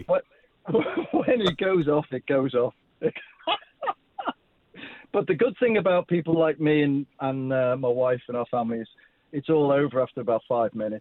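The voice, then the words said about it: Slight Liverpudlian accent. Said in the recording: “you've got a bit of a Liverpudlian accent”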